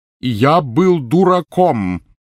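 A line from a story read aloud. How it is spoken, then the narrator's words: Very loud exclamation. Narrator (Russian): воскликнул Перси так громко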